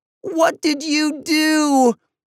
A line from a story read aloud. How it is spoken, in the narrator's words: both kids screeched at the same time